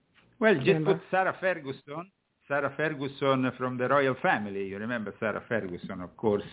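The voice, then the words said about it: Italian accent. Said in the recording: “It's that Italian accent. Yeah. I wasn't picking up what you're putting down.”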